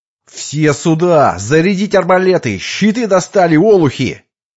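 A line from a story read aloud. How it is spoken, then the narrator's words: Nonstop yelling. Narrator (Russian): Потавилетти орал без перерыва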